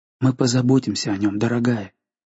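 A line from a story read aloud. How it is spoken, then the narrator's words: Barely audible whisper. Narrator (Russian): Жанна едва слышно шепнула на ухо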